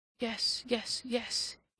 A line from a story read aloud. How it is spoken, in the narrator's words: he murmured